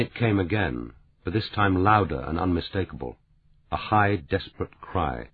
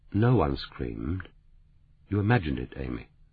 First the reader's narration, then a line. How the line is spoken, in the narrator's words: He said quietly